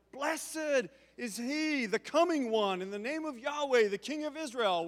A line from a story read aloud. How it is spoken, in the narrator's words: they all literally are yelling